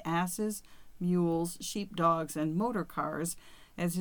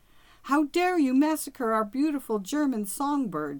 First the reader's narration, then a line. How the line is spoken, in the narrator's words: she screamed